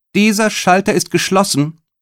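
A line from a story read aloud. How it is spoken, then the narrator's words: Calling out. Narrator (German): rief die Beamtin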